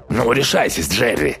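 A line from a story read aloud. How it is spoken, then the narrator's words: Mocking grumble. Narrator (Russian): насмешливо проворчал Рич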